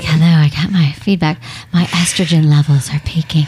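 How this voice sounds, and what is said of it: Deep, sexy voice. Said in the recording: “I'll read it in a really like deep, sexy voice.”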